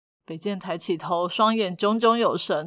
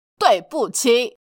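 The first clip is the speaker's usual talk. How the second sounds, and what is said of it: Loud, defiant shouted apology. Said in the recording (Chinese): “大声的喊出 ... 但口气呢，就是像这样，好像打了对方一巴掌一样”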